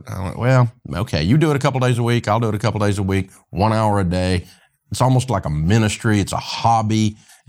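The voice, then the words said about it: Mild Southern US accent. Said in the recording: “I've still got a great Southern accent, but I've cut a bunch of it out ... our hillbilly accent”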